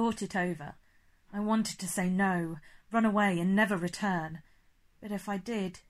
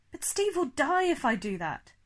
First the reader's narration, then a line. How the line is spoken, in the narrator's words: I cried